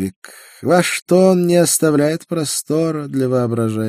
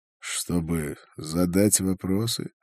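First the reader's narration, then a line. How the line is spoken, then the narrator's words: Sighing. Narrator (Russian): Он вздохнул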